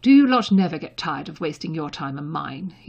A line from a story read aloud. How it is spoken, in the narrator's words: he demanded coldly